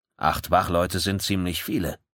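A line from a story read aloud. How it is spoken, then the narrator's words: Loud. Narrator (German): sagte Kensaburo Nyori laut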